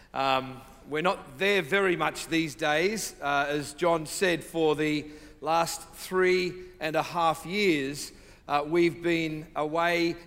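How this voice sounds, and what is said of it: Australian accent. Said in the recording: “so that you can get used to my accent ... from South, the deep South, uh, Sydney, Australia”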